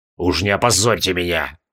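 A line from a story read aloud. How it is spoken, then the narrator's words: Barely audible grumble over hoofbeats. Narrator (Russian): Чуть слышно ворчал капитан, сам себя не слыша за грохотом копыт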